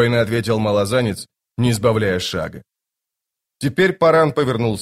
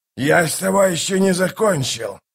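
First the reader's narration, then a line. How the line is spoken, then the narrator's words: Hissed. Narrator (Russian): прошипел Калор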